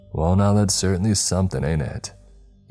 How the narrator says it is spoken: He said with an easygoing chuckle

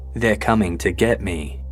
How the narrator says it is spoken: In a frightened voice, Aaron whispered

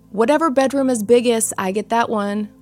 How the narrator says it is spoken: Lucy yelled out

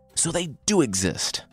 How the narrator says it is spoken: Sentaro blurted out

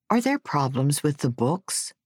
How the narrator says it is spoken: asked

